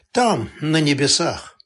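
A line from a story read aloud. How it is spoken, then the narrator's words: Sighing. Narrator (Russian): Канунникова вздохнула и добавила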